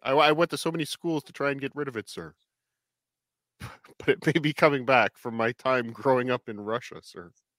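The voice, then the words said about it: Put-on Russian accent. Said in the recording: “my old Russian accent is slipping back in”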